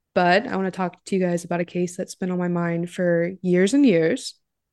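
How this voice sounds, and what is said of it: Sick-sounding voice. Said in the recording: “I'm a little sick, so I apologize for my voice”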